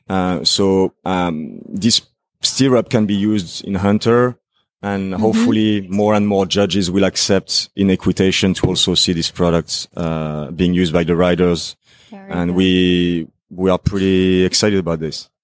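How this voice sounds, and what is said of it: French accent. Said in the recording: “a sexy French accent”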